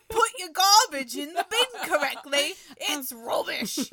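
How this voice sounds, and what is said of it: Put-on Cockney accent. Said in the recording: “Bono's a real Cockney accent, isn't he?”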